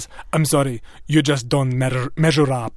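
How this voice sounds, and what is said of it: Imitates another person's voice. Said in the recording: “That was a terrible Iman. That was the worst impression. ... it was actually very good. ... It was actually pretty good.”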